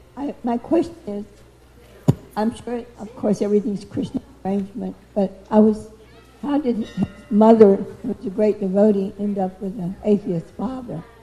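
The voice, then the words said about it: Dry, strained voice. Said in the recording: “my voice is so dry ... my voice is very”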